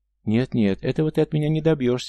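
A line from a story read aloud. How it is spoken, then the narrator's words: Exclamation. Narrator (Russian): воскликнула та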